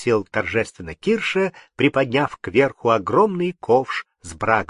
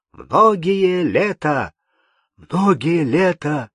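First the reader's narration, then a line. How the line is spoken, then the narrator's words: Crowd exclaiming. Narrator (Russian): воскликнули все гости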